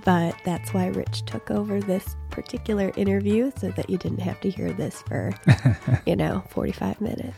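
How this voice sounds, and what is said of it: Sick-sounding voice. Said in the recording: “you can tell by my voice that I'm a little under the weather”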